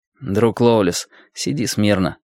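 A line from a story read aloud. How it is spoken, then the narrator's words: Plain. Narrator (Russian): сказал он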